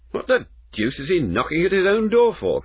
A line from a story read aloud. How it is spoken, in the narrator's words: cried the clerk